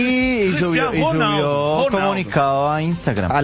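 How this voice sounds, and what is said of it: Usual voice. Nothing is said of it.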